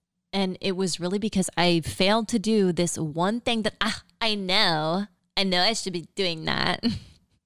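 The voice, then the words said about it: Valley girl voice. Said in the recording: “That's my impression of me. Like, such a valley girl.”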